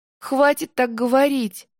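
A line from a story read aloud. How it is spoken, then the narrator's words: Sobbing. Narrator (Russian): всхлипнула Анна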